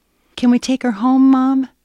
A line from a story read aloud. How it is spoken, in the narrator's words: pleaded with one voice